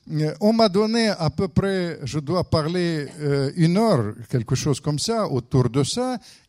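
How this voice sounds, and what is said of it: Speaker's own foreign accent in French. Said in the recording (French): “vous allez subir mon accent.”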